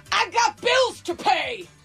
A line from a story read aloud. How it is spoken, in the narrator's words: apparently also shouting